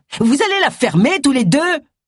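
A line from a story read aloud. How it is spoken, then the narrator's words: Shouting. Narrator (French): hurla Agatha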